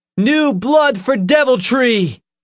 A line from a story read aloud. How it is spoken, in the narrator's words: he shouted